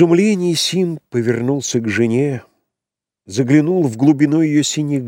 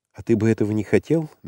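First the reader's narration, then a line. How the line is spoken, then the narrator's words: Gentle question. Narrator (Russian): мягко спросила Керин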